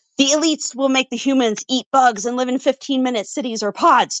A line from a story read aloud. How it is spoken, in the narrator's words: Chester blurted